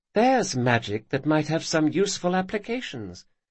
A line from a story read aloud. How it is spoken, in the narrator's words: she said wistfully